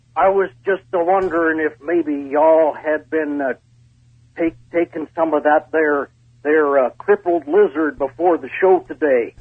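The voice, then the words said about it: Put-on pirate or redneck voice. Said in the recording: “Are you a pirate or are you a redneck?”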